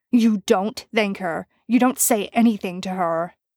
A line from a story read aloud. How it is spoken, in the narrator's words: Dean snarled